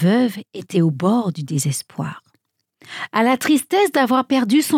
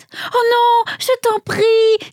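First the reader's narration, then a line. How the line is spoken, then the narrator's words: Widow's pleading cry. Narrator (French): s'écria la veuve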